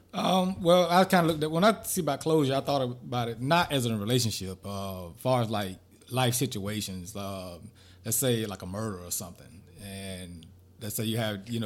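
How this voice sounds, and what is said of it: Country Southern accent with twang. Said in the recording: “you were so country. There was no D in there. It was murder. ... my country. Twang.”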